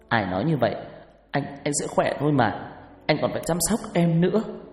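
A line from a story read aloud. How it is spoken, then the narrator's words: Choked with tears. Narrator (Vietnamese): Giọng cô nghẹn ngào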